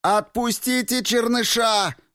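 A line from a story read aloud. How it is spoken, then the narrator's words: Yell. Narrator (Russian): заорал Рико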